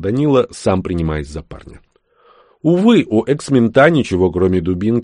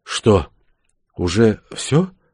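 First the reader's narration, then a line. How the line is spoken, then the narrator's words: Weak questioning voice. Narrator (Russian): слабым голосом осведомился Прянин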